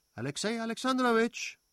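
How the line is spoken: Called out. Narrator (German): rief Fürstin Betsy

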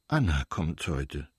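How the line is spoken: Trembling voice. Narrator (German): wiederholte er mit zitternder Stimme

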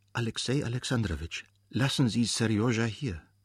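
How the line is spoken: Whispered again. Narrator (German): flüsterte sie noch einmal

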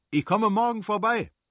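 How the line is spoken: Calling after someone. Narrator (German): rief ihm nach

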